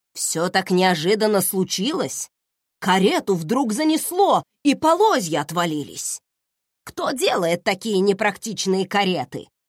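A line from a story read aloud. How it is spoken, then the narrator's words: Grumbling. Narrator (Russian): ворчала Клементина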